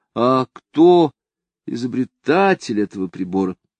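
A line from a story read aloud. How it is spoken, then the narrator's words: Uncertain question. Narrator (Russian): Кто-нибудь как бы неуверенно спрашивал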